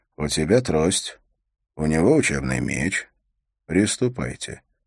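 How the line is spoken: Quiet, commanding order. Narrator (Russian): приказал он тихо, но его услышали все

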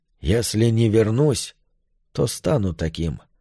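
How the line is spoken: Sad. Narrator (Russian): печально произнес Йорк

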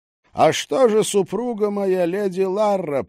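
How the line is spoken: Shouting. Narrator (Russian): прокричал он

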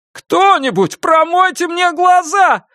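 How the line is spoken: Indignant wailing shout. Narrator (Russian): с негодованием завопил Дженсен

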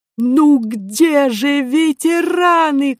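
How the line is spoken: Shouting. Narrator (Russian): кричал Милодар

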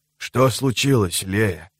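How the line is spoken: Quiet question. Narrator (Russian): спросил он ее тихо

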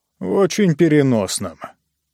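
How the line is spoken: Grumbling. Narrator (Russian): проворчал Хаммонд

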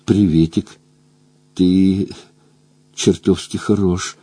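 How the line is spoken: Conspiratorial tone. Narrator (Russian): произнесла заговорщицким тоном

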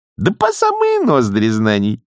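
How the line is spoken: Cheerful. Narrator (Russian): весело ответила нянюшка

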